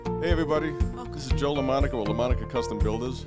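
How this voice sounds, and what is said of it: Boston Italian-American accent. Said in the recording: “Listen to that voice. ... A little mafioso, a little whatever. ... Boston, ... Accent. ... He sounds gangster or like Italian, but also Guido.”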